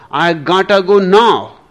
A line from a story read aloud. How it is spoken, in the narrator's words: shouted the girl